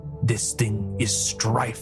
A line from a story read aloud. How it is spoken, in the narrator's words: Trella hissed